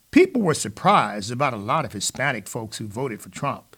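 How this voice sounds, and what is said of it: Imitates another person's voice. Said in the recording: “my little Obama imitation”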